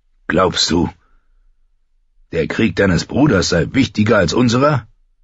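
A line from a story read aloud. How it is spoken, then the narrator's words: Old man barking. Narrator (German): bellte der alte Mann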